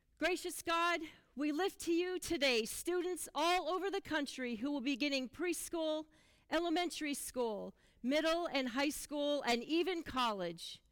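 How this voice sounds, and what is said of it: Loud, near-shouting delivery. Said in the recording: “I'm going to try to belt it out there so you guys can hear it ... sounding like I'm yelling at all of you guys”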